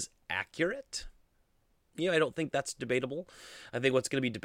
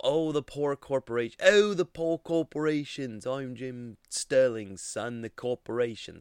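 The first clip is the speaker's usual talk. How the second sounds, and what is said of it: Poorly done imitated accent. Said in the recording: “That was a terrible accent”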